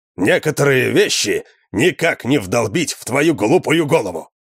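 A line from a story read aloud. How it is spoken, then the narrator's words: Barking. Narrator (Russian): рявкнул он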